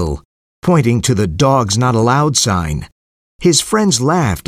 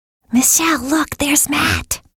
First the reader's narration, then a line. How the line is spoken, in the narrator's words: whispered Susan